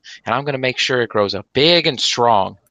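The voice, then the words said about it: Put-on country accent. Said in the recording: “is my country accent ... great accent”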